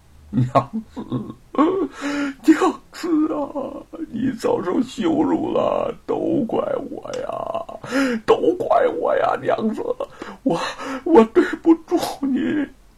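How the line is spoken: Weeping bitterly. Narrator (Chinese): 贼儿痛哭起来

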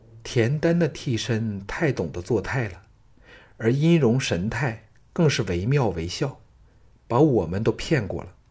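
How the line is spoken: Sighing. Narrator (Chinese): 季嫣然叹道

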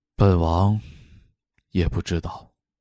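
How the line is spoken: Flat, indifferent. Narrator (Chinese): 淡淡说道

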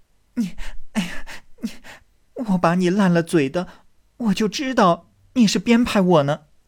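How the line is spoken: Laughing. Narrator (Chinese): 黛玉笑道

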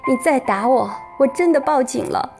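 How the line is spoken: Crying. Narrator (Chinese): 我捂着脸哭着说

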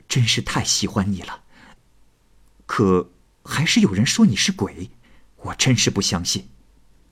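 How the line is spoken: Low, intimate murmur. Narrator (Chinese): 桑生在枕头上低声的说道

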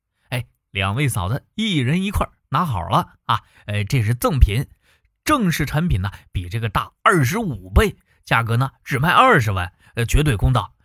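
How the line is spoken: Laughing. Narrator (Chinese): 李直笑道

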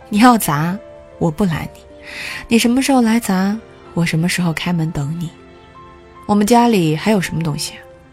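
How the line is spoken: Angry laugh. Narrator (Chinese): 女儿这时候又被他气得笑了

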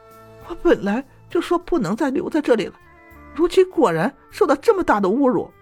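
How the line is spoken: Hurried, crying. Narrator (Chinese): 封三娘 急匆匆地 哭着说

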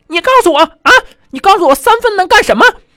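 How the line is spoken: Roaring, furious. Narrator (Chinese): 这英语老师上来就咆哮了

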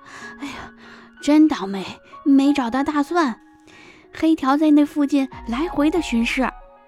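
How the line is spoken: Panting. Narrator (Chinese): 火爪钻进来，气喘吁吁地说

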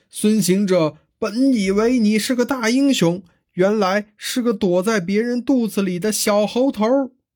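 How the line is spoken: Provoking taunting shout. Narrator (Chinese): 大鹏雕使了个激将法，高叫

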